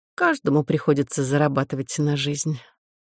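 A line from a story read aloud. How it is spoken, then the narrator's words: Sighing. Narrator (Russian): вздохнула муха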